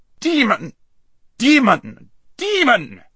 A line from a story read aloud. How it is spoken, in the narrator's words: shrieked the prince